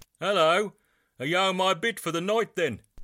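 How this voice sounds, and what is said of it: Birmingham English accent. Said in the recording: “in that sexy English accent that I later discovered wasn't remotely sexy if you're from England and familiar with Birmingham”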